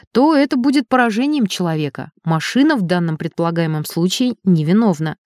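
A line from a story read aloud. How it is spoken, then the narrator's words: Calm. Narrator (Russian): спокойно сказал Элик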